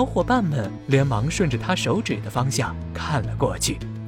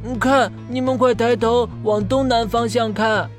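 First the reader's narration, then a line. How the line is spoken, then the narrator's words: Sudden calling out. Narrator (Chinese): 忽然听到河马憨憨在一旁叫道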